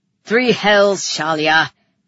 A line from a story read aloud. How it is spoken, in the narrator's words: he snapped